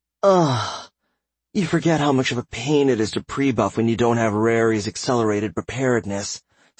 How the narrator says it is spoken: Silver sighed

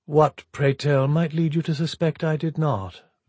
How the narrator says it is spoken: Villiers asked in a deceptively mild tone

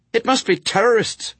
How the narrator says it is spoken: she snapped

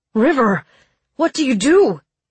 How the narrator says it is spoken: He cried

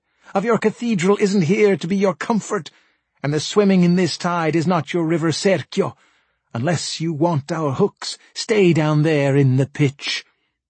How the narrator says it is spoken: they cried

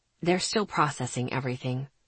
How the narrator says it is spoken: he said gently

